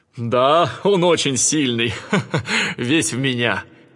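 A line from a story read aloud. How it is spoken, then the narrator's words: Laughing. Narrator (Russian): Зевс засмеялся и сказал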